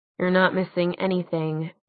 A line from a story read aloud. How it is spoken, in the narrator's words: Clary muttered